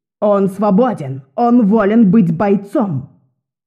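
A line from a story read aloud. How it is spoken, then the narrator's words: Exclaimed. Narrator (Russian): воскликнула Одесса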